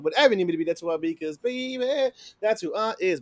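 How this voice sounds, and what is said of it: Voice cracks. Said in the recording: “My voice cracked.”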